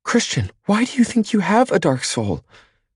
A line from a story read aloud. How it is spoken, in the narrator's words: She cries out, totally surprising me